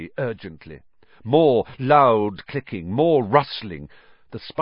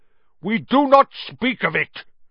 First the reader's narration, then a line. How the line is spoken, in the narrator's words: said Aragog fiercely